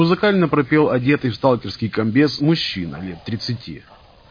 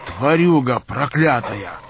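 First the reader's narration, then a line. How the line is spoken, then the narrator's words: Hissed. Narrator (Russian): Прошипел он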